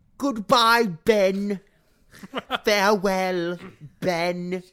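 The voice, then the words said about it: Imitates a film character's voice. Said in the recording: “let me do it in my best Rey voice”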